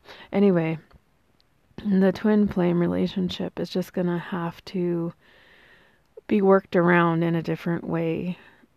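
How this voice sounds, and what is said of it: Hoarse, strained voice. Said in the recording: “I am losing my voice again today.”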